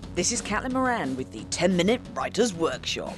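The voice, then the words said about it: Official voiceover announcer voice. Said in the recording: “Is that the official voice? ... in my official voiceover voice”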